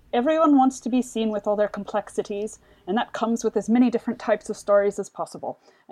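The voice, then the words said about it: Attempted Irish accent, not very good. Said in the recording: “I don't think it was a very good Irish accent. I don't think that was close to her Irish accent”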